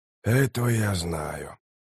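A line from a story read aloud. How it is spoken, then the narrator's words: Quiet. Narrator (Russian): тихо произнес Трель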